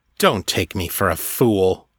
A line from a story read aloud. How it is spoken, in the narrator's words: the master said scornfully